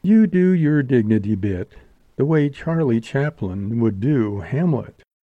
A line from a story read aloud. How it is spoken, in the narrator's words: she purred